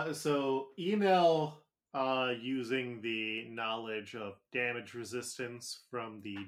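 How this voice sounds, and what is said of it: Usual voice. Nothing is said of it.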